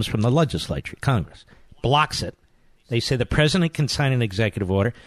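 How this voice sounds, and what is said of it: Usual voice. Nothing is said of it.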